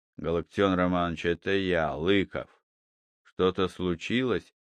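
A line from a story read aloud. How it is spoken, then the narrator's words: Quiet speech. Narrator (Russian): Сыщик сказал негромко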